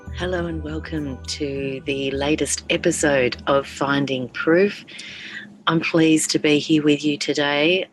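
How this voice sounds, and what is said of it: Hoarse voice from sore throat. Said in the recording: “hear in my voice... I have had the killer of all sore throats over the last few weeks”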